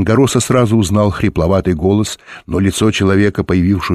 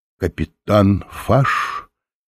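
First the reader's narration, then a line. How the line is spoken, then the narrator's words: Uncertain question. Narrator (Russian): неуверенно спросил Оренгороса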